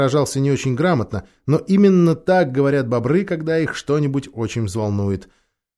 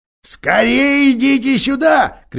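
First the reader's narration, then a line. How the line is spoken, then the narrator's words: Joyful shout. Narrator (Russian): кричал мистер Бобр, чуть не приплясывая от радости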